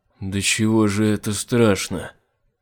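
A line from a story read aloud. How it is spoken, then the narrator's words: Muffled, hollow voice. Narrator (Russian): проговорил глухо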